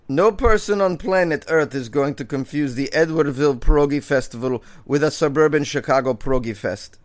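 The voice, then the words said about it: Put-on Polish accent. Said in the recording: “How was that for a Polish accent?”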